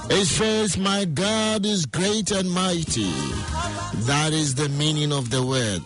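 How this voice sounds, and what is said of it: Nigerian accent. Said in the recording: “Today my Nigerian accent is coming.”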